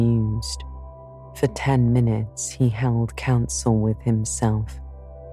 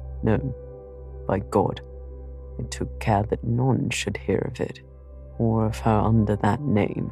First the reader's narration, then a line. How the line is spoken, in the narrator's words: he muttered